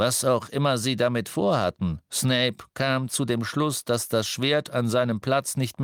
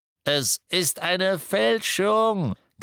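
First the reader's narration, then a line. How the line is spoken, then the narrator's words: Croak. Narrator (German): krächzte Griphook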